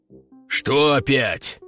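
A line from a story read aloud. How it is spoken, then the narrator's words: Displeased grumble. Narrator (Russian): недовольно пробурчал он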